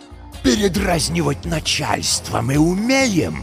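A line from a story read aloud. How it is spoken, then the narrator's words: Hissing. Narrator (Russian): прошипел он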